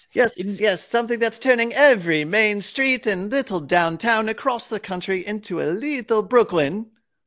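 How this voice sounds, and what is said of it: Belarusian accent. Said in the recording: “You said that with a bit of a ... Belarusian accent.”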